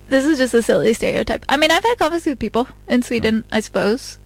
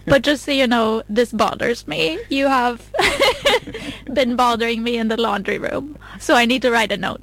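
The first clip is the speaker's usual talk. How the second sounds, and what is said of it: Put-on Swedish accent. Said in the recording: “Swedish accent tone.”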